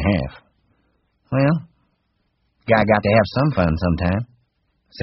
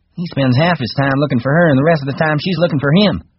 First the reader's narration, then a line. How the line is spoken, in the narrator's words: Whit said sarcastically